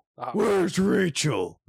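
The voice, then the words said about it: Gravelly Christian Bale Batman impression. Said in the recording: “do Batman impression ... It has to be Christian Bale ... That was terrible”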